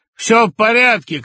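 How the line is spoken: Shouted. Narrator (Russian): крикнул Петя

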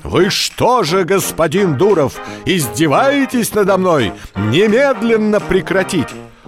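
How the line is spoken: Angry shout. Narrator (Russian): градоначальник закричал

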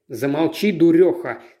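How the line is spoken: Fierce bark. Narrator (Russian): свирепо рявкнул Дэвид

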